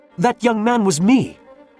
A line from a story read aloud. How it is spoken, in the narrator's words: cried Marius